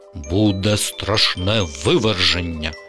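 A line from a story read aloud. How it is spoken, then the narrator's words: Father's stern voice. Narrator (Ukrainian): суворим голосом відповів тато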